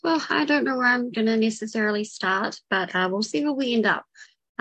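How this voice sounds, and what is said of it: New Zealand accent. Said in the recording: “If it's not obvious by accent, I'm from New Zealand.”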